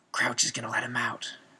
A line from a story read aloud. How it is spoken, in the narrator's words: Moody breathed quietly to Dumbledore